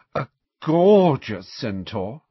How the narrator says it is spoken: sighed Parvati

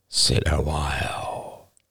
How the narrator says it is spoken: he breathed

